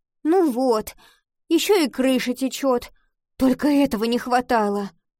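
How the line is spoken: Groan. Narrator (Russian): простонала она

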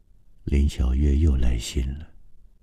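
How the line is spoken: Soft. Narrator (Chinese): 郑川在他的背后轻声说

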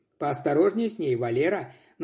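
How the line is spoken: Mocking parting words. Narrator (Russian): Насмешливо напутствовал его начальник

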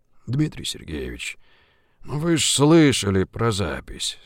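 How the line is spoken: Sighing. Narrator (Russian): вздохнула Жигулин

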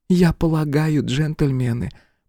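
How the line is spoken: Woman whispering. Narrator (Russian): прошептала женщина

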